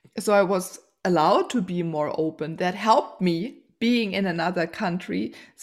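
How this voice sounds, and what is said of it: German accent. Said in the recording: “I'm German. I have to, I have the German accent.”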